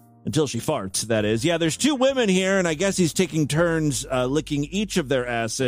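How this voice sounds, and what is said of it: Usual voice. Nothing is said of it.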